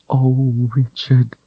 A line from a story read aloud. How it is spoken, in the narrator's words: she said soothingly